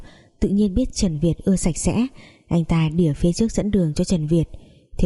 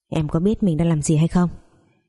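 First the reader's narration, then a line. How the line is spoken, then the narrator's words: Cold. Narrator (Vietnamese): lạnh lùng nói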